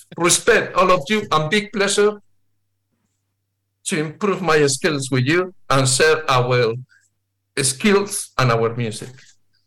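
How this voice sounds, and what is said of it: Non-native English accent. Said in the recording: “Sorry for my accent.”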